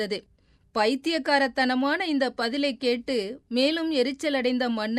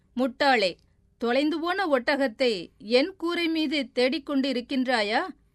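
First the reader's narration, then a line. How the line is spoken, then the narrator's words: Mocking question. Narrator (Tamil): என்று ஏளனமாக கேட்டார்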